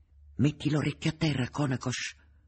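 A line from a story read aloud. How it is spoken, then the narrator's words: Low-voiced order. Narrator (Italian): ordinò sottovoce Boca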